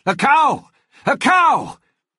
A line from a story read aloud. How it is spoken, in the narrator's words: Nate shouted